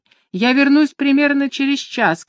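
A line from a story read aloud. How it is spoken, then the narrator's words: Shouting. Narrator (Russian): крикнула она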